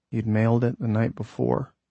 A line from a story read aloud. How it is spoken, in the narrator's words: the writer murmured